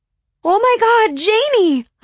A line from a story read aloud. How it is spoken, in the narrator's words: I squealed